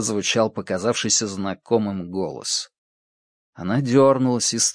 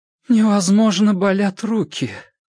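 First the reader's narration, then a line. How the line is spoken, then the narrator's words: Strained, forced out. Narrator (Russian): выдавила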